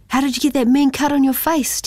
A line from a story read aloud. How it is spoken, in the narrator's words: Timothy asked excitedly